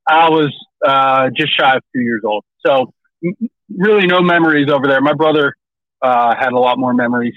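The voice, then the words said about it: Mild Western Pennsylvania drawl, welcoming voice. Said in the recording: “You have like almost like a not a strong Southern accent. You don't have a draw ... it's called Pennsylvania ... People from Western PA have a little bit of a draw ... you have a very like welcoming voice”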